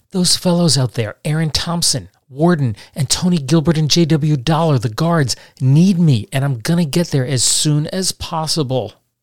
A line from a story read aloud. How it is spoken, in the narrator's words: he pleaded with Calloway